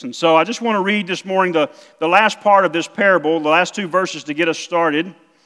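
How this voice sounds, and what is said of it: South Mississippi accent. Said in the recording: “I don't have a Montana accent. I have a South Mississippi accent.”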